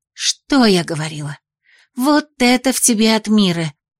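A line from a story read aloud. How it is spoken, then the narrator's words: Joyful exclamation. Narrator (Russian): радостно воскликнула Хваяна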